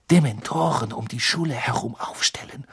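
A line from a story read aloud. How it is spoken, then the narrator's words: Murmuring. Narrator (German): murmelte sie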